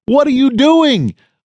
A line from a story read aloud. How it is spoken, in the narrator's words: I yelled down the line